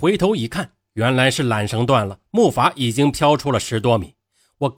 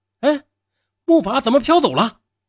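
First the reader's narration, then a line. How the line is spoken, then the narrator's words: Shout. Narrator (Chinese): 不知是谁喊了一声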